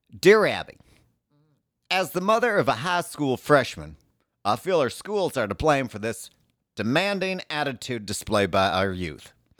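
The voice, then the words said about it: Reading a letter in put-on accent. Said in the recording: “Accent, please.”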